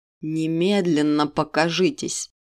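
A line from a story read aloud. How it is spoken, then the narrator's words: King's demanding growl. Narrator (Russian): требовательно прорычал король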